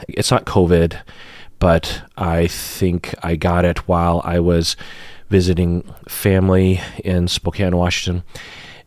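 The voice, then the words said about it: Slightly sick-sounding voice. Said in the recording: “I'm sick today. Not terribly sick, but you might be able to hear it in my voice. I have a cough.”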